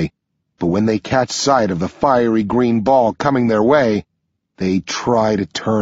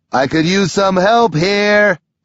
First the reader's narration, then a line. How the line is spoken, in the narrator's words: Sam yells